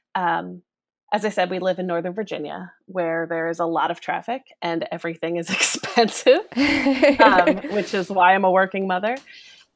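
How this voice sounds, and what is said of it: Philadelphia-area American accent. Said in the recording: “you can probably tell from my accent that I come from the Philadelphia area ... I've been trying to get rid of it for years and I can't ... with a Philadelphia accent”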